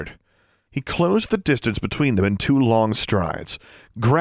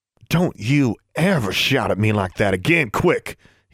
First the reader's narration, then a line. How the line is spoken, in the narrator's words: he hissed back